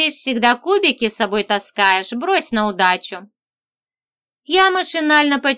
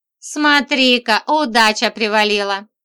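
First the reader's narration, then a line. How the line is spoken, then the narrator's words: Chuckling, gleeful. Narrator (Russian): Хохотнул Еремей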